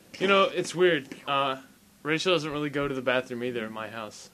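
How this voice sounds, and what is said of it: Radio podcast voice. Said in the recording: “Not in a regular ... tone. No, this is my radio podcast voice.”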